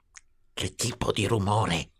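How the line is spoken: Whispered. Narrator (Italian): sussurrò

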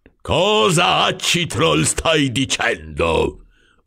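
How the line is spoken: Growled. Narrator (Italian): ringhiò il signor Troll

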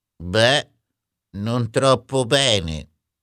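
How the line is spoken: Gloomy, dark voice. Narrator (Italian): rispose Ulrich con voce cupa

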